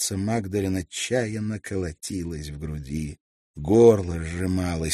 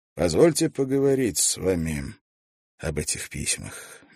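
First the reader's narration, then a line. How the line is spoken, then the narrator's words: Gentle opening. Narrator (Russian): мягко начал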